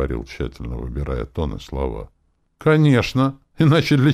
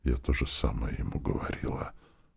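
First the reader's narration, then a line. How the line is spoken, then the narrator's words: Aunt whispering. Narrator (Russian): прошептала тетушка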